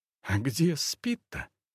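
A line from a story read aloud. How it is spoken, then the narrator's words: Surprised whisper. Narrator (Russian): От неожиданности она тоже перешла на шепот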